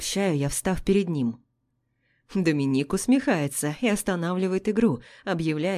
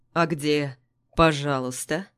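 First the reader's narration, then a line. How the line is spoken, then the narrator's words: Velvety husky, preachy tone. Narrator (Russian): Бархатная хрипотца в нравоучительном тоне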